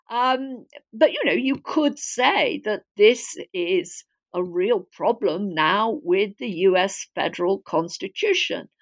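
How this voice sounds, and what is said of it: Non-American accent. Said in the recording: “as my accent suggests, I'm not American by birth”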